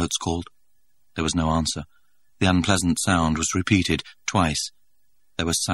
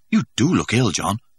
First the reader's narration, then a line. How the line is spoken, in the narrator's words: Helmholtz exclaimed solicitously